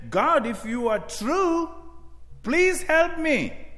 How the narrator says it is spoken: he cried out saying

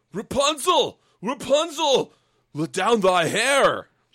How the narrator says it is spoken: the king's son cried

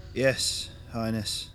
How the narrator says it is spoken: he replied, his voice slightly slurred

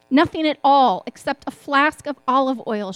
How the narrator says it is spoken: she replied

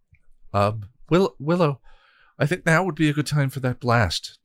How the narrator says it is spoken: Tara said nervously

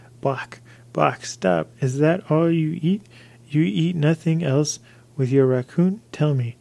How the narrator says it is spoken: Manzibo cried out

